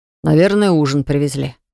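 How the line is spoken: Sighing. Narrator (Russian): вздохнул Баграт

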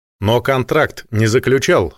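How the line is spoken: Calm. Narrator (Russian): спокойно сообщил Несвицкий

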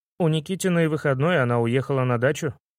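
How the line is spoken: Plain. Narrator (Russian): сказал кто-то

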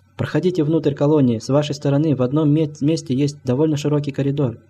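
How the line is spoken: Plain. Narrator (Russian): ответил старик

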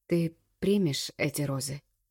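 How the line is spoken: Quiet, altered voice. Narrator (Russian): тихо спрашивает не своим голосом

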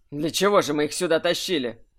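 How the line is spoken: Snorting. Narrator (Russian): фыркнул Кирсан

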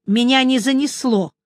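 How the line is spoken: Angry objection. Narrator (Russian): сердито возразила Меломори

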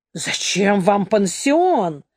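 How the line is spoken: Indignant exclamation. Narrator (Russian): воскликнул со страшным возмущением

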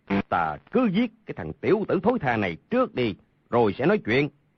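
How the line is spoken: Angry speech. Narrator (Vietnamese): Hầu Thông Hải tức giận nói

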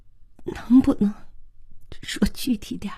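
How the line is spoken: Trembling question. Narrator (Chinese): 慧娟声音颤悠悠地问

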